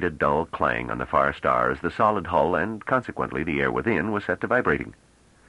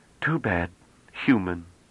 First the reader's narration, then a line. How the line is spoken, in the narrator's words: he said in a disappointed voice